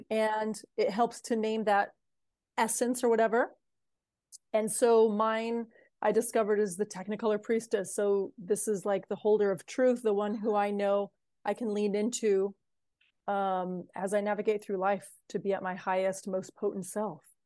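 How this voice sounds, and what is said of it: American accent. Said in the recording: “you hear that American accent, don't you?”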